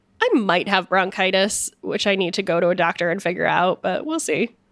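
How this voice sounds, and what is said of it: Stuffed-up, not fully recovered voice. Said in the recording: “you can hear in my voice that I'm still... My voice hasn't come all the way back. I'm a little stuffed up.”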